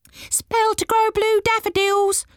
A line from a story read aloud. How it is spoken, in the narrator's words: cried a gnome